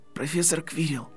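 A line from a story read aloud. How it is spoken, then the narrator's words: Whispered. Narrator (Russian): прошептал Гарри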